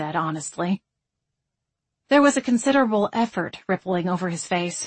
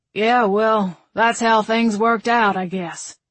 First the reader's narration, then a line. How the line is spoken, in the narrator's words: Stan grumbled